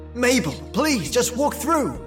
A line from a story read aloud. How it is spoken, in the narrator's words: I yelled